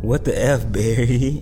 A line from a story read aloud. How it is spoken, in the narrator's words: Todd groaned